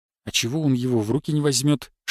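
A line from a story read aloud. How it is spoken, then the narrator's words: Whispered. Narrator (Russian): шепнул я Шишакову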